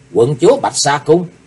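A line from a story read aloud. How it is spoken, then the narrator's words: Stunned exclamation. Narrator (Vietnamese): Chí Tôn sững người kêu lên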